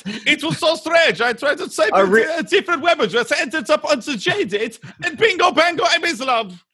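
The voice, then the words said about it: Pretty good put-on German accent. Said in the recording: “Actually a pretty good German accent”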